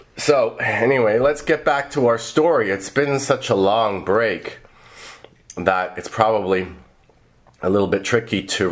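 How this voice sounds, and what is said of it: Hoarse, congested voice. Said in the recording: “I caught a cold ... my voice is a little bit hoarse”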